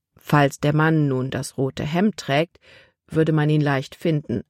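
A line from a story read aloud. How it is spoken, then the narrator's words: Plain answer. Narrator (German): antwortete Papa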